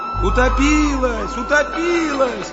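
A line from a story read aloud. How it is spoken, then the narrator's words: Many voices shouting. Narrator (Russian): кричали десятки голосов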